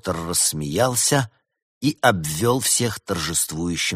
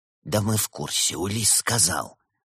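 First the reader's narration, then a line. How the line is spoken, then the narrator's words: Soft gentle voice. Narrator (Russian): мягко сообщил дух зимы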